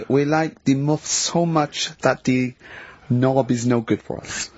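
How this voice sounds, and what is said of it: Fake Russian accent sounding German. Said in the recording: “you don't sound so much Russian as German ... we cannot do the accent properly”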